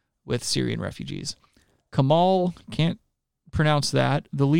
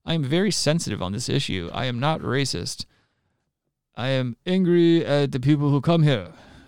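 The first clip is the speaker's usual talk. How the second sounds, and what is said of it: Put-on foreign accent, sounds Japanese. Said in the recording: “How do they do a Turkish accent? ... that was like Asian. ... I went Japanese with it, I think. ... kind of like Jewish, but not.”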